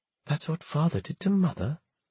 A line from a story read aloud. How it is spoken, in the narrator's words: Nathaniel had whispered in horror